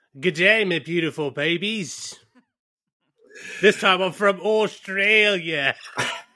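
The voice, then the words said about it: Put-on Australian accent. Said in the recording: “now visiting us from down under ... With a pitch-perfect accent ... sparkling, immaculate accent ... It's like Paul Hogan's”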